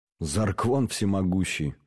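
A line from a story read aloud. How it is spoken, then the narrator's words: Tired. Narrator (Russian): устало сказал Форд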